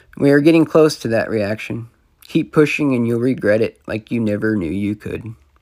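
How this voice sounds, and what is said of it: Hoarse voice. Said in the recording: “sorry for the hoarse voice”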